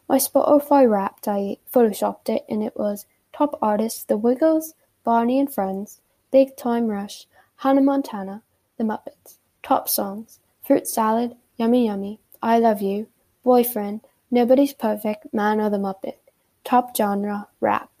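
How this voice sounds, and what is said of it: Put-on British accent. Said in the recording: “I should be speaking in a British accent.”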